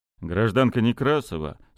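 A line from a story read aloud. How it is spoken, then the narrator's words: Dry inquiry. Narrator (Russian): сухо осведомился Кольцов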